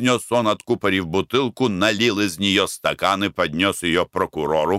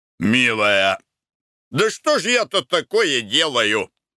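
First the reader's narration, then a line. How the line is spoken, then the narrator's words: Exclaiming. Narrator (Russian): воскликнул Николай Иванович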